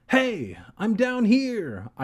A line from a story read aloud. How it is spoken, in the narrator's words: I called out a little louder